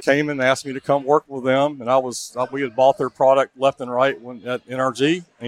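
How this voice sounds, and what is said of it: Native Houston accent. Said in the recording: “I didn't know you were a native Houstonian ... the accent, right? ... The accent's legit, man. It's organic.”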